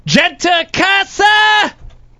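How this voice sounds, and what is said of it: Screaming loudly. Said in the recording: “Why are you screaming?”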